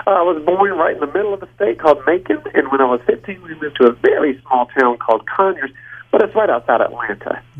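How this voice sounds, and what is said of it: Southern American Georgia accent. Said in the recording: “you do seem to have that same accent ... I'm from Georgia.”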